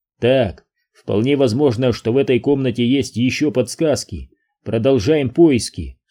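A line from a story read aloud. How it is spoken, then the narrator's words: Plain. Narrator (Russian): сказал он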